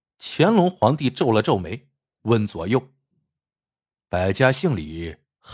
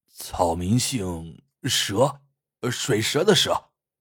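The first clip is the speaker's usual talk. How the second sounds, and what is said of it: Quiet, hushed reply. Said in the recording (Chinese): “小声答道”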